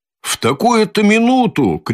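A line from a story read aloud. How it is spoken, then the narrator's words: Shout. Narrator (Russian): крикнул Разумихин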